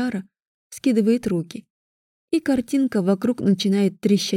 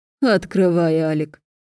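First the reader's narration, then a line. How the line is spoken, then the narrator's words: Mocking voice. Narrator (Russian): Голос Виара звучит насмешливо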